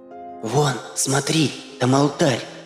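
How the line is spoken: Whisper. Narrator (Russian): прошептала девушка

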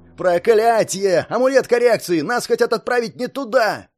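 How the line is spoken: Agitated shout. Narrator (Russian): взволнованно закричал Партин

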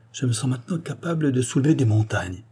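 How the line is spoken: Loud joyful voice. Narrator (French): dit-il tout haut d'une voix joyeuse

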